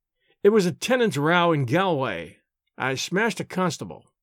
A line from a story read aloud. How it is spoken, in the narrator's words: he answered